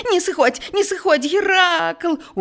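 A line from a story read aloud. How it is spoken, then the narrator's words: Desperate shout. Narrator (Belarusian): у адчаі закрычаў Эўрысфей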